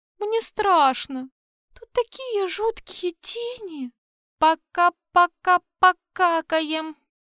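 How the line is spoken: Humming a tune. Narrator (Russian): Замурлыкал я мушкетерскую песенку

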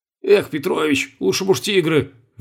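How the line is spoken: Sighing. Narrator (Russian): вздохнул Колобков

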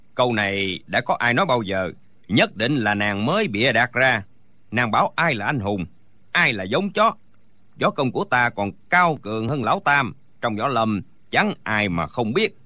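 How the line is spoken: Furious booming shout. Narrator (Vietnamese): Đinh Bất Tứ tức quá quát lên oang oang

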